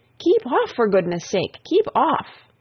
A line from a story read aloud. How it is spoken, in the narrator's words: the others cried out